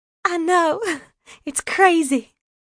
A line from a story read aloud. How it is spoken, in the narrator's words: Grace laughed, that sweet, tinkling laugh